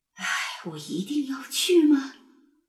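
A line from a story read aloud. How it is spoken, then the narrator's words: Inward grumbling. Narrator (Chinese): 牙医 心里还是泛着嘀咕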